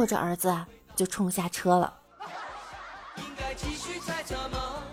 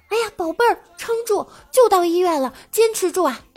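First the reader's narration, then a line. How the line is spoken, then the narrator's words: Sudden loud shout. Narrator (Chinese): 突然大叫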